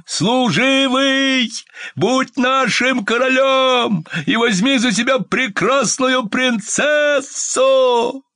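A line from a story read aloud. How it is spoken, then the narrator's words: Dogs shouting. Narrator (Russian): все 3 собаки кричали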